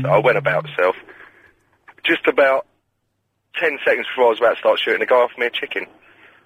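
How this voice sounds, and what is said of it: Croaky, hoarse voice. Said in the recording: “your voice is all croaky. It sounds like it's 3 o'clock in the morning ... smoking too much, smoking too much.”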